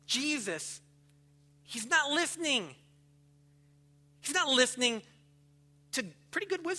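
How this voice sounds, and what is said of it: Usual voice. Nothing is said of it.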